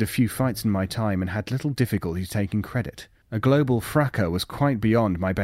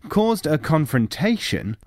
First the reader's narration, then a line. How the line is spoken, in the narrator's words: raised my voice